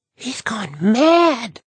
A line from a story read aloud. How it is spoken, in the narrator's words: Marvy gasped